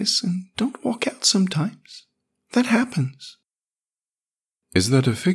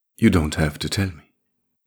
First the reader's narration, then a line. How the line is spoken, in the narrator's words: Cicada murmured